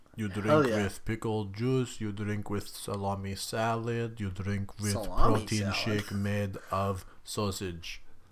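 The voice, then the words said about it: Put-on Russian accent. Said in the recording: “that Russian accent? I couldn't understand you ... when you were talking Russian,”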